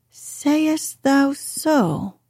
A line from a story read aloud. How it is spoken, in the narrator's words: I cried